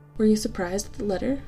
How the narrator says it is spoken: said John

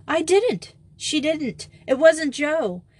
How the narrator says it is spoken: exclaimed several voices at once

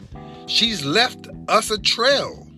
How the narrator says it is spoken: Ollie said excitedly

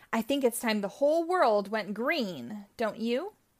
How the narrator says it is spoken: Poison Ivy cackled

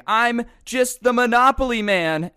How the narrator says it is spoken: run onto a bus screaming

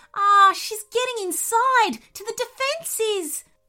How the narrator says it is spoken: squealed the nervous voice

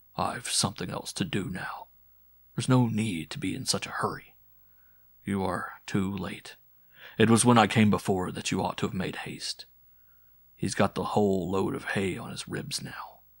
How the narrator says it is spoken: as he murmured

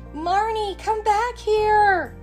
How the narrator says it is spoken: screamed the little girl's mother

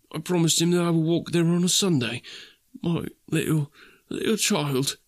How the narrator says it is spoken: cried Bob

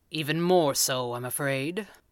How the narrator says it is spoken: Tom Tomorrow said grimly

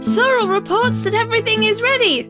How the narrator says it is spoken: yelled Shrilly

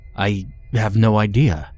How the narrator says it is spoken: I blurted without thinking

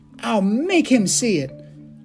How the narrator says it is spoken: Tarzan cried

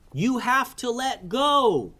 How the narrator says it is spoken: yelled Kaleo

